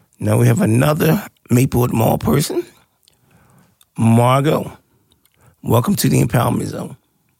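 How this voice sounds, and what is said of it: Raspy, hoarse voice. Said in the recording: “You hear my voice, don't you? ... raspy there, that voice.”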